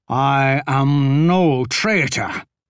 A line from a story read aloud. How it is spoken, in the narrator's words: Jagdish snarled